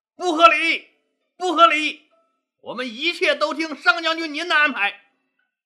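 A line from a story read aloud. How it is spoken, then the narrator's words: Crowd shouting together. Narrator (Chinese): 大家齐声大喊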